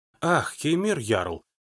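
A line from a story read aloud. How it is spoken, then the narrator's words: Quiet exclamation, female guest. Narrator (Russian): негромко воскликнула гостья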